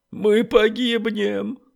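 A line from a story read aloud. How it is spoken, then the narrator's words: Sobbing. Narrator (Russian): услышал он вдруг чье-то рыдание рядом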